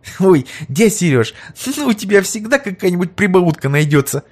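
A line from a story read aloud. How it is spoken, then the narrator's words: Giggle. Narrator (Russian): хихикнула Верочка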